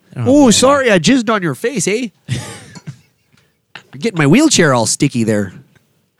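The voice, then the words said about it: Put-on Canadian accent. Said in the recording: “That's my impression. ... It's pretty good. ... Of someone that might attend Toronto.”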